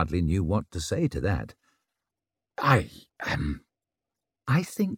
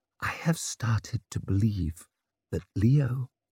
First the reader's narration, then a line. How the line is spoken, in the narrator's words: whispered the words